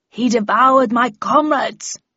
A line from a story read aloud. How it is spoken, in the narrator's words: growled Odysseus angrily